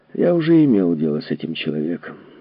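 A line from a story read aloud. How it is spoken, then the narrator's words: Sighing. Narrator (Russian): вздохнул Нимо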